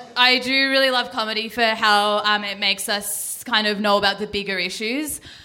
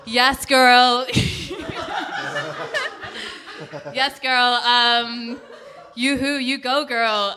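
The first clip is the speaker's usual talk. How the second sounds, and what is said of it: Put-on American accent, sassy. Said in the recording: “my independent woman voice in an American accent”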